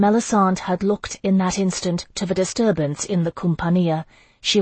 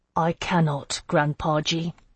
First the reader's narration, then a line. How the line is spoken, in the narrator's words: he said quietly